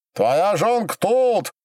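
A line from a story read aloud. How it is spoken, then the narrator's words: Shouting. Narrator (Russian): закричал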